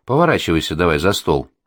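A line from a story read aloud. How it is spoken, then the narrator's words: Calm and gentle. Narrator (Russian): Спокойно и ласково говорю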